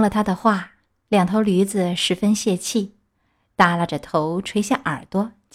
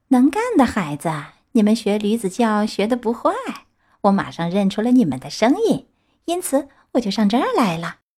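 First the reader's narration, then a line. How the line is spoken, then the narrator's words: Cheerful, grinning. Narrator (Chinese): 他还是那么笑嘻嘻的对皮诺乔和小灯芯说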